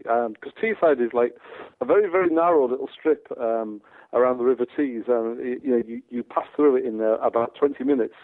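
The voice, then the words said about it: Teesside (Middlesbrough) English accent. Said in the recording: “when they hear your accent, they say that you are either Dutch, Australian, or Scouse... a Teesside accent”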